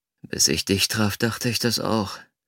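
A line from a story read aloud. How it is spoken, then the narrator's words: Groaning. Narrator (German): stöhnte ich und holte tief Luft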